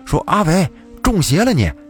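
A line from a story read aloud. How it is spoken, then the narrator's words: Shouting. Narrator (Chinese): 小胖子朝着阿伟的方向喊了一句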